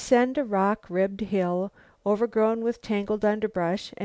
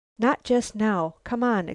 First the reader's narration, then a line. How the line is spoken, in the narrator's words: exclaimed Lucile, who was weary of battling with the jungle